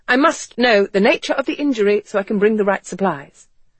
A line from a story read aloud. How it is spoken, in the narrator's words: Garrett said impatiently